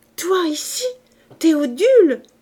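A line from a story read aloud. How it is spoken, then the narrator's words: Exclaimed. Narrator (French): s'écria-t-elle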